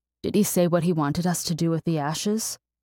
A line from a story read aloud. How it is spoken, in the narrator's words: Alma asked, her voice rough